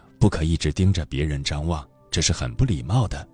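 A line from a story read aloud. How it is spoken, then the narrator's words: Low voice. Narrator (Chinese): 杨绛低声告诉女儿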